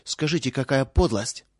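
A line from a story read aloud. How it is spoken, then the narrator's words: Said angrily. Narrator (Russian): проговорила сердито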